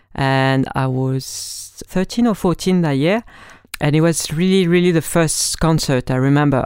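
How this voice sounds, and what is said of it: French accent. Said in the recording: “As you may notice with my accent, I'm French”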